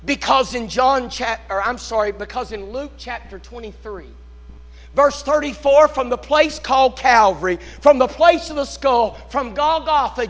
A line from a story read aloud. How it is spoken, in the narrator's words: Jesus cried